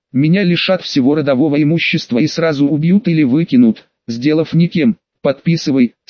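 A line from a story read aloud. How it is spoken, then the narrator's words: Plain. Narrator (Russian): сказал старик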